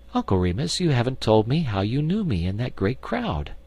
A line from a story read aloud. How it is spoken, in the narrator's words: she laughed and said